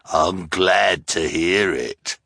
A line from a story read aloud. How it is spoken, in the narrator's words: the hook-handed man sneered